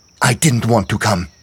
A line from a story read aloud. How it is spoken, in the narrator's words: snapped